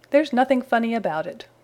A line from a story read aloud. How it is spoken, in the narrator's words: retorted Spooky